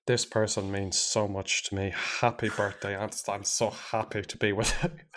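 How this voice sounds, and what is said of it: Put-on accent. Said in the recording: “I did another accent”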